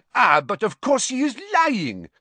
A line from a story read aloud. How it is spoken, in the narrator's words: cried Madame Maxime